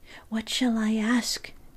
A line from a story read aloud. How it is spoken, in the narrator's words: whispers